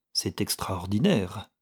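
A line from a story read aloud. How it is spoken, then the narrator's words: Murmur. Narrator (French): murmura Guiret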